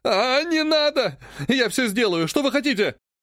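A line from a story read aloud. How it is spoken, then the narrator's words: Yelling at full strength. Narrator (Russian): Он орал изо всех сил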